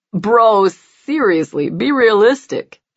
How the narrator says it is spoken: John scoffs

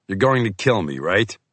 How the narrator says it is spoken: Henry chuckled

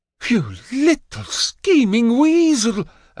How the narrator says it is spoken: Asmodeus cries

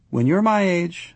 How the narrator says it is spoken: Leslie gave a little sigh

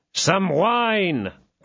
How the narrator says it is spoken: cried Athos

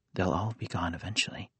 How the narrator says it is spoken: he added softly, almost to himself

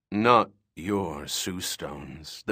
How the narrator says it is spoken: the Phibian said with a long, bubbling rumble

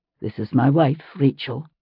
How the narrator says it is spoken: Ian said softly

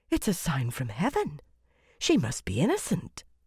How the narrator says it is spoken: many whispered

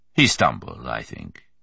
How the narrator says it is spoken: Merriman said swiftly, smoothly

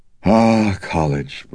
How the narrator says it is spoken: breathed out Kinderman ruefully

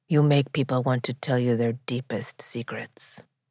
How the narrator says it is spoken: murmured into her ear

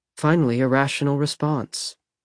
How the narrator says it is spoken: she murmured

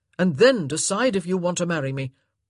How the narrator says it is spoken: he said in a harsh voice

